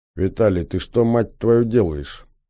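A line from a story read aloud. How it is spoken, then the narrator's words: Quiet, secretive question. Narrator (Russian): тихо спросил Батоныч, чтобы никто не слышал нашего разговора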